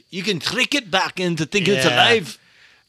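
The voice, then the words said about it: Poor put-on Scottish accent. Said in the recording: “That's my terrible Scottish accent.”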